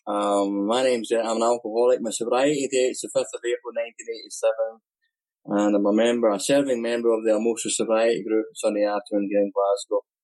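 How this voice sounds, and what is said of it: Scottish accent. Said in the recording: “my Scottish accent.”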